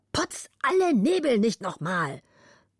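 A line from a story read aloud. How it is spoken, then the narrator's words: Angry shout. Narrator (German): zornig rief er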